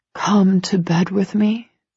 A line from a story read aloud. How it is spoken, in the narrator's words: he whispers, and it's a heartfelt plea